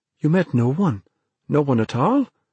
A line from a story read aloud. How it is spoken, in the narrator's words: Dennis asked anxiously